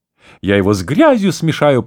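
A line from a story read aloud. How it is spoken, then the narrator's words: Shrill squeal. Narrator (Russian): провизжал новоиспеченный рыцарь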